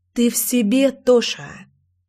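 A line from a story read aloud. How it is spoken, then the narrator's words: Hiss. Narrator (Russian): шипела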